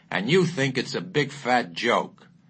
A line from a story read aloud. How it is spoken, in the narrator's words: the colonel with the big fat mustache roared